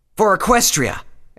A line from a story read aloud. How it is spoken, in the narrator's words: every pony shouted